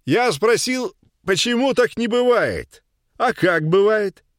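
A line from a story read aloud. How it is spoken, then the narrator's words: Loud smiling repetition. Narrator (Russian): громко повторил городской мужчина, заранее почему-то улыбаясь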